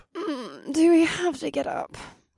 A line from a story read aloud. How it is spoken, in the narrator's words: Alyssa moaned